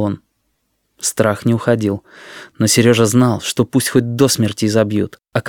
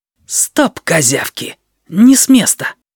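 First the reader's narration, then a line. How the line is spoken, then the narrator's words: Menacing whispered command. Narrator (Russian): угрожающим шепотом приказал киса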